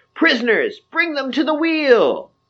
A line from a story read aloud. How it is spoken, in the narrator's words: they start yapping excitedly, saying